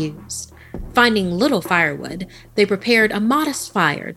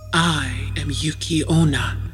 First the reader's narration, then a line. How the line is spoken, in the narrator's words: the woman whispered